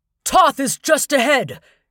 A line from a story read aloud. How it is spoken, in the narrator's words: Skip shouted